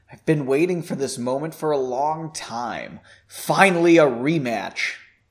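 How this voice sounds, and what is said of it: Spiteful villain character voice. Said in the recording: “he said in a spiteful voice.”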